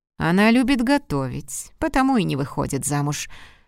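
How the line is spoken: Dry explanation. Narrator (Russian): сухо объяснил он

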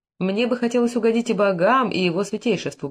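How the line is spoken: Old man muttering. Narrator (Russian): бормотал старый пастух

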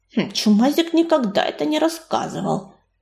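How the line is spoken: Mumbled under breath. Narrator (Russian): пробормотала себе под нос Коди

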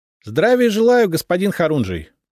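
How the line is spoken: Cheerful greeting. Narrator (Russian): бодро поприветствовал

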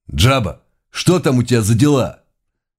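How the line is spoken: Hostile voice. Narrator (Russian): крайне неприязненным голосом бандит произнес

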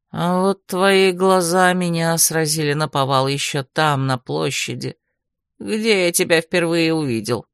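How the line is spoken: Unexpectedly soft male voice. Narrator (Russian): неожиданно мягким тоном поделился мужчина

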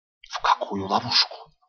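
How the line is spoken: Whispered question. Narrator (Russian): тоже шепотом спрашиваю

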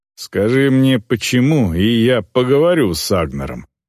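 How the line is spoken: Plain. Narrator (Russian): ответила Эльвар

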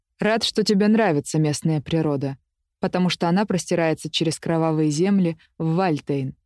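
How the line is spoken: Plain. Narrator (Russian): сказал

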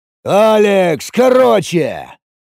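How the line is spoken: Barking. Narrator (Russian): рявкнул Самсон

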